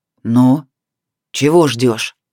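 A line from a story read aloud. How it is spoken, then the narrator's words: Furious, through gritted teeth. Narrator (Russian): процедил Сияр, желая растерзать непонятливого толстяка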